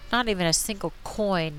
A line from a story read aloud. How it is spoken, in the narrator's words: Nanny grumbled